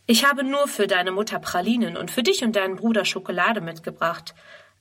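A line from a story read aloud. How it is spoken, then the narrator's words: Plain. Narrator (German): antwortet er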